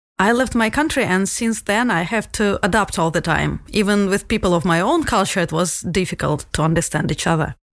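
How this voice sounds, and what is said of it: Strong Russian accent. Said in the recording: “I am from Russia. You could already tell that by my tough accent.”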